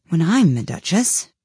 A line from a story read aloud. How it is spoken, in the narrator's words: she said to herself, not in a very hopeful tone, though,